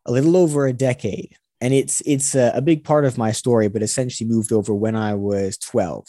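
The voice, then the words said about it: Mostly American accent with British mix. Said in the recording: “accent is a little bit strange. I was born in Los Angeles in California, so I've got this kind of amalgamation of the two accents, still much more American”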